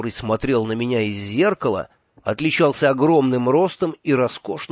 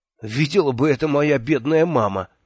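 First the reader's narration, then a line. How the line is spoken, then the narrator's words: Nervous laughter. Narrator (Russian): нервно рассмеялся я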